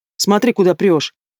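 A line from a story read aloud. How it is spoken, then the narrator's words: Very rude. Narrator (Russian): Чересчур грубо обращается ко мне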